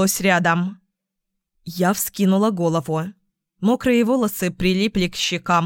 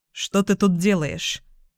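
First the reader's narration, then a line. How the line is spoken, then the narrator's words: Plain. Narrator (Russian): спросил он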